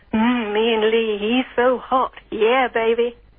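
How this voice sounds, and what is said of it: Sultry, seductive voice. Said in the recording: “can I say Ian Lee's so hot in a sexy voice?”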